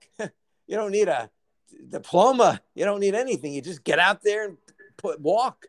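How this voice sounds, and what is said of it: Imitates another person's voice. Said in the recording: “bone-chillingly perfect ... impersonation of our president ... I thought, wow, is he on the phone?”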